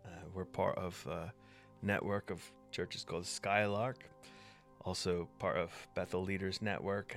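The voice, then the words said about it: Mixed transatlantic American accent. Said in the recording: “I'm American. My accent, I've been told, is a bit of a mishmash at this point. ... Transatlantic.”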